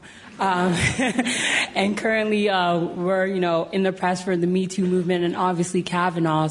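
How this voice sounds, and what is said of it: American accent. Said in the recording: “As you can tell from my accent, I'm from the land of Trump.”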